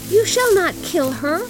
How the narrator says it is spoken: cried her little daughter

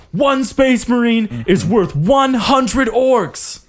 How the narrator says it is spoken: a voice shouts

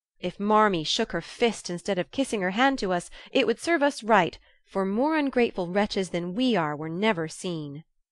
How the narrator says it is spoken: cried Joe, taking a remorseful satisfaction

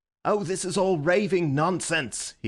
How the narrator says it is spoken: he cried

